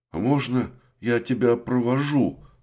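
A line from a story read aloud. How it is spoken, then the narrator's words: Timid question. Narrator (Russian): робко спросил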